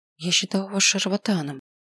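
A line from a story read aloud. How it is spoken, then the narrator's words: Whisper. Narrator (Russian): прошептала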